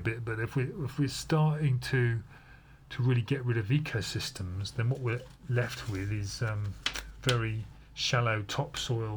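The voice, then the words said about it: Unusual, strange speaking voice. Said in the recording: “I've been talking in this quite strange voice”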